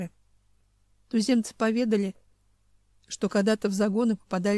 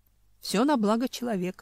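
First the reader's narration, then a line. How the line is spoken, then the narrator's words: Grim smirk. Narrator (Russian): мрачно усмехнулся Семен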